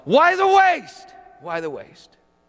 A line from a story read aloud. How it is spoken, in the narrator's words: yell